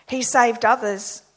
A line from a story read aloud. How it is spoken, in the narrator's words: they said